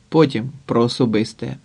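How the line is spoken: Grumbled. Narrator (Ukrainian): буркнув Сердюк

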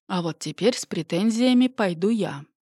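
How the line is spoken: Sighing. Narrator (Russian): вздохнул Анатолий Палыч

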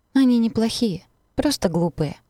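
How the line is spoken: Sad. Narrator (Russian): грустно констатирует Оливия

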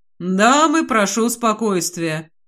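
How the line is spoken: Peaceable tone. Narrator (Russian): миролюбивым тоном говорит он

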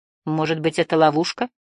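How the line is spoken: Distrustful grumble. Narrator (Russian): недоверчиво проворчал Барда

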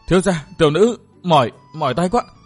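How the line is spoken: Breathless panting. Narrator (Vietnamese): miệng thở hổn hển nói

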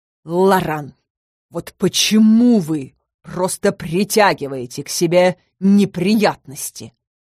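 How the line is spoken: Growl. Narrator (Russian): рыкнул

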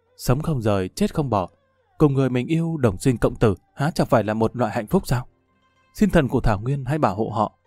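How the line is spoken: Murmuring. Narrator (Vietnamese): lẩm bẩm

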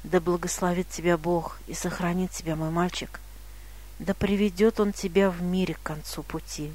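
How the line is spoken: Quiet. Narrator (Russian): он тихо сказал

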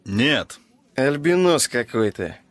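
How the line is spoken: Short laugh. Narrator (Russian): хохотнул щуплый темноволосый мужчина, сидевший рядом с Нагорном

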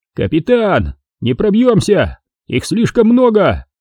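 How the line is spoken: Distant yell. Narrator (Russian): заорал с той стороны улицы Гора

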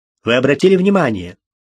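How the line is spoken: Angry. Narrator (Russian): сердито произнес доктор Фелл

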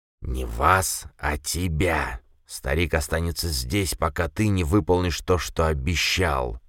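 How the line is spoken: Hissing spider. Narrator (Russian): зашипела паучиха

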